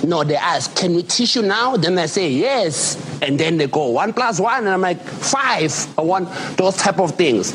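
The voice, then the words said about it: South African accent. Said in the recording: “I just love listening to this accent. ... Love the South African.”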